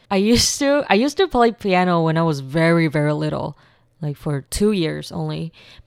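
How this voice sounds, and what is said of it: Californian American accent. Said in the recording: “my accent was like this. Just like stuck to California accent.”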